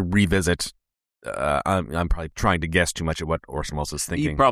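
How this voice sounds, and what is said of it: Usual voice. Nothing is said of it.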